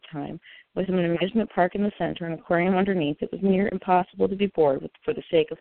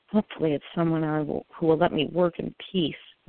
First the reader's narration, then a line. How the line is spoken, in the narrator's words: I mumbled